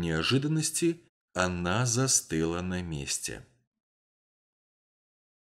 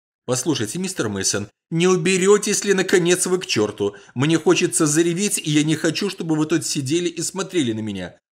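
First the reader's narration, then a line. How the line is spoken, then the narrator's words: Shouted out. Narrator (Russian): выкрикнула Сюзанна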